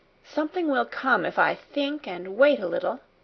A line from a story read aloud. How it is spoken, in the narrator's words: in a soft, expectant voice